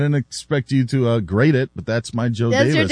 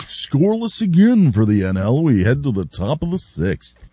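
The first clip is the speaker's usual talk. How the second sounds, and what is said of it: Imitates another person's voice. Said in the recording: “here's my Joe Davis ... That's your Joe Davis? ... I don't get that one. ... There's other impersonations you do that are better, so that one was not one of your best.”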